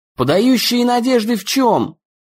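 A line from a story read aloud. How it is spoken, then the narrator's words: Exasperated shout. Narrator (Russian): Дэн не выдержал и крикнул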